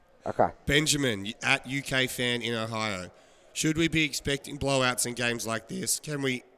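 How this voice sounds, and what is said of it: Rough, strained voice. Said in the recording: “sorry, my voice is so bad.”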